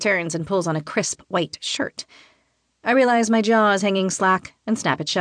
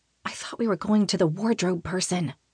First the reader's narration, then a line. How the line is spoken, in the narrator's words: whisper